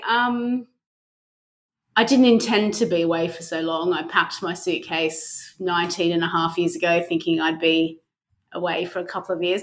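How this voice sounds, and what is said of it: Australian accent with slight London twang. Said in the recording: “you're an Aussie ... But you do have a bit of a London twang to your accent”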